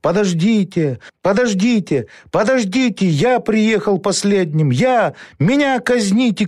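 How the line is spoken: Shouted. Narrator (Russian): крикнул

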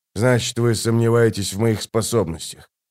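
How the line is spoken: Sigh. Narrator (Russian): Она вздохнула

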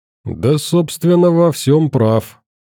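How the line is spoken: Sad. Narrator (Russian): печально сказал мужик в костюме

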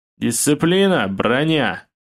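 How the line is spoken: Barked command. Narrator (Russian): рявкнул майор

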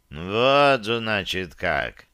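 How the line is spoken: Slow, through gritted teeth. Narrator (Russian): медленно процедил инквизитор

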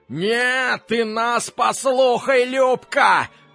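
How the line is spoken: Drunken falsetto yell. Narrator (Russian): заорал пьяным фальцетом Жорик

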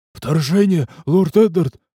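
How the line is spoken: Breathless exclamation. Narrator (Russian): выдохнул крестьянин

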